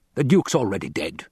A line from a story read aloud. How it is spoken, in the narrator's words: the Baron snapped